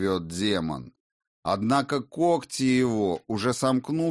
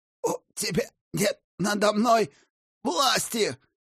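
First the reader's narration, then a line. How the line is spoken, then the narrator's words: Hoarse, shaky defiance. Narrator (Russian): Хрипит Матфей, судорожно дергаясь и собирая остатки смелости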